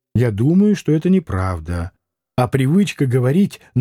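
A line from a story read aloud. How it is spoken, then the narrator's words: Timid reply. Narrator (Russian): Спивак робко ответил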